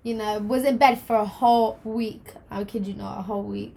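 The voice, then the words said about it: Rough voice recovering from flu. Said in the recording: “my voice sounds a little bit dodgy still. But caught the flu, lost my voice.”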